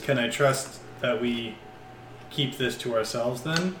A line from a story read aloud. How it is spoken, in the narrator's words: He sighs again and says